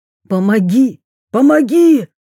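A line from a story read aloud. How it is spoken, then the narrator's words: Barked shout. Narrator (Russian): рявкнул Шукшин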